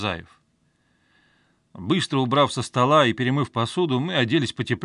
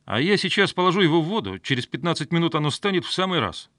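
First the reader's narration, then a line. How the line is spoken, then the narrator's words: Cheerful reply. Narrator (Russian): весело ответил я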